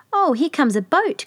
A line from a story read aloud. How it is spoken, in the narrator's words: cried Gretel